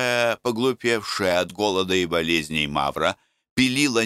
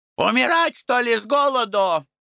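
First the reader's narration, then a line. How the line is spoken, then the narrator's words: Angry shouting. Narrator (Russian): кричала обозленная Мавра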